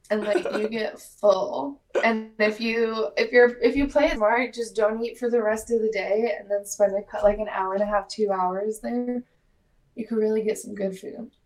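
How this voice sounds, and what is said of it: Sounds sick. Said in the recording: “I don't know if you can hear it in my voice, but the last kind of news that I have is that I am sick again.”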